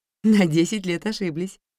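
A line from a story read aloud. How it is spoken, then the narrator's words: Cheerful. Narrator (Russian): весело сказала квартирантка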